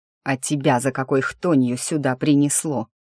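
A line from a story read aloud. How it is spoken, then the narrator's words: Growl. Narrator (Russian): рыкнул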